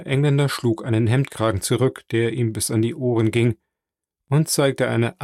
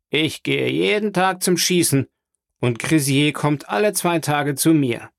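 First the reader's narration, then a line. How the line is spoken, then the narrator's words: Englishman calling out. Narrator (German): rief der Engländer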